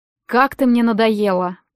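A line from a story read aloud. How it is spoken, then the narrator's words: Gloomy. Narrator (Russian): проговорил мрачно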